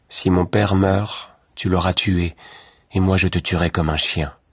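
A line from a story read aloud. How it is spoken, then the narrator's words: Dark grim voice. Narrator (French): dit Louis Cornbutte d'une voix sombre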